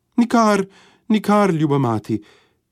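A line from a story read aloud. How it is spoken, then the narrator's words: Dwarf calling out. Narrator (Slovenian): je zaklical palček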